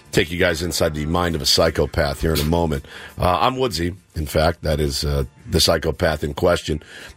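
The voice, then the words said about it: Hoarse, strained voice. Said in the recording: “My voice is going. You guys can tell a little bit. Probably because I spent most of my day screaming into the phone yesterday.”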